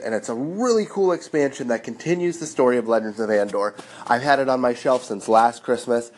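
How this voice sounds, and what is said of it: Sick, strained voice. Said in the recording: “I can't talk today. You can probably hear in my voice I'm a little bit sick”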